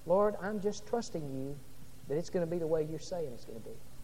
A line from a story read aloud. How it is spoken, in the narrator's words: Noah uttered under his breath several times